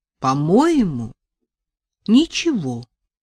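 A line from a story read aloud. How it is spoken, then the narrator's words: Mild, surprised. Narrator (Russian): сказал умеренно, изумленным голосом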